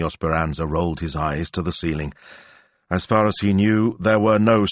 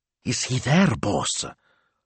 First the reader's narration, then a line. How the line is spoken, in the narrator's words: Smilzo whispered as if someone might be listening